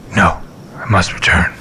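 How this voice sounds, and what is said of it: Batman-style character voice. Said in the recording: “I knew they sounded like Batman. ... That is a good impression”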